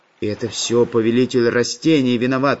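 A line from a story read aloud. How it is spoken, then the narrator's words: Displeased grumble. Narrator (Russian): недовольно пробурчал Карандаш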